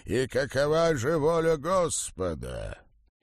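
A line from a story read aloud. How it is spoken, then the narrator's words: Growl. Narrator (Russian): он прорычал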